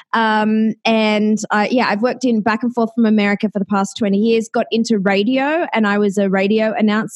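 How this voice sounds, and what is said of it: Australian accent. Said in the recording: “Yes, I have an Australian accent”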